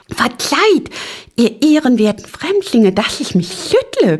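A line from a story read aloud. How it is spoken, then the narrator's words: Squeaky voice. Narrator (German): piepste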